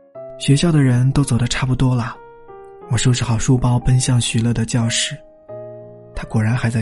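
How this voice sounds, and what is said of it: Usual voice. Nothing is said of it.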